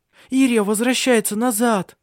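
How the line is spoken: Exclaiming. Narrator (Russian): воскликнула она

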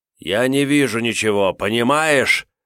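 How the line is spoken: Yell. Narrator (Russian): заорал Марс

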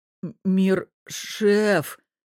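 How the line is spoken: Stammering. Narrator (Russian): заикается Гриша

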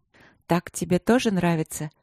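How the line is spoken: Soft half-voice. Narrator (Russian): спросила в полголоса

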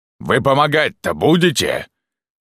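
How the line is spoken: Shouted. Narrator (Russian): крикнул их боец ближнего боя

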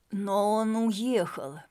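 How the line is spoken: Growling. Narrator (Russian): прорычал Дронго

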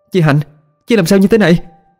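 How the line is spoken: Shouting. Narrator (Vietnamese): Thúy hét lên

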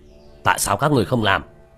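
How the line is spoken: Hurried middle-aged man's shout. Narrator (Vietnamese): Người đàn ông trung niên thấy vậy vội vàng quát

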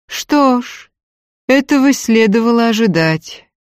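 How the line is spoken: Grim statement. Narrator (Russian): мрачно сообщила

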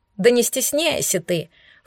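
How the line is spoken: Snort. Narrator (Russian): фыркнул Пушистик

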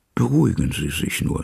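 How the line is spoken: Plain. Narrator (German): sagte er

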